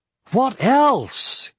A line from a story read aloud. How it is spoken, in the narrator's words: cried Aragorn